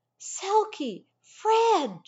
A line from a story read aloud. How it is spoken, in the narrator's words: she shouted